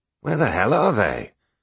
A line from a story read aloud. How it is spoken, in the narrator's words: he grumbled